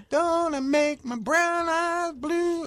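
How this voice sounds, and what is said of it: Imitates another person's singing voice. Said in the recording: “my Crystal Gayle impersonation”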